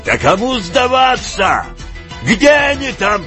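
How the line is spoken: Shouted again. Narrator (Russian): прокричал опять он

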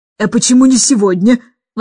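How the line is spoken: Exclamation. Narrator (Russian): воскликнула мисс Эндрю

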